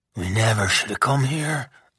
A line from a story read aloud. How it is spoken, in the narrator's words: Beau whispered